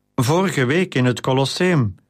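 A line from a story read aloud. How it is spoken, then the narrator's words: Faltering voice. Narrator (Dutch): ging Junia verder met een haperende stem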